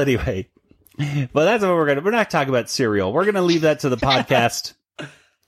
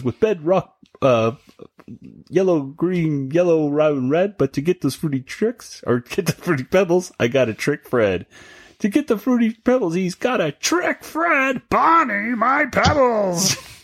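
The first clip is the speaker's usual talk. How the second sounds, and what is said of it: Cartoon character voice impression. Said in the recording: “You did a really good impression.”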